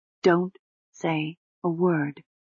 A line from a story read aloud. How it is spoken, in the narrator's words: she said quietly